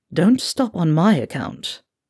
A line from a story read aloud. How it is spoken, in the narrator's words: the blonde was eyeing the pair of them with lust, and he purred